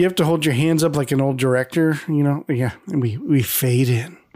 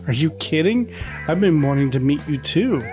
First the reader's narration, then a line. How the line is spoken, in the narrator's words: Greg laughs and says